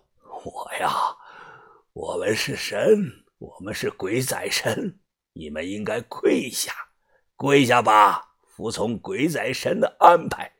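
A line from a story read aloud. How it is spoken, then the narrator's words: Hoarse. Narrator (Chinese): 这个人沙哑的说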